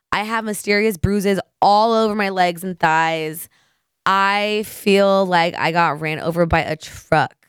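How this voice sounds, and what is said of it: Hoarse, nearly lost voice. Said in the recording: “my voice is like gone”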